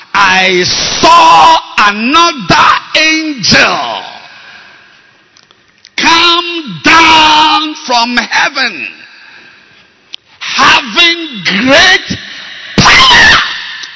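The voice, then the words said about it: Shouting preacher. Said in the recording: “I'm sorry for shouting. ... Shout, Bishop.”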